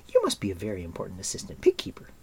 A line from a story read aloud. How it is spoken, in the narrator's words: said Elanwy with a small laugh